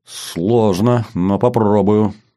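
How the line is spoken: Uncertain mutter. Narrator (Russian): неуверенно бормочет капитан

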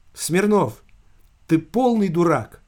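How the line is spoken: Loud, flat, clipped. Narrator (Russian): Совершенно бесстрастно, громко отчеканила Ариэлла

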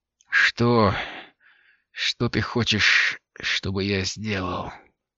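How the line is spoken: Forced out with effort. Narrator (Russian): С трудом выдавила Лири

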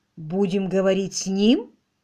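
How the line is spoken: Plain question. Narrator (Russian): спросила мисс Климсон

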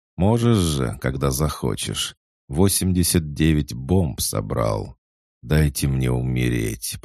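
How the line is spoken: Groaned. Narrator (Russian): простонал я

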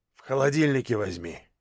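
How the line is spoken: Grumble. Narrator (Russian): буркнул

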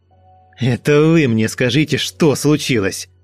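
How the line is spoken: Barking. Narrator (Russian): Рявкнул он

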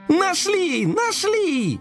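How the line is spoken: Joyful wail. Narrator (Russian): завопил радостный коржик

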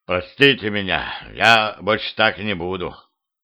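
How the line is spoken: Childish mumble. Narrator (Russian): по-детски промямлил он

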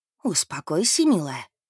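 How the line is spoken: Whisper. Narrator (Russian): прошептала она

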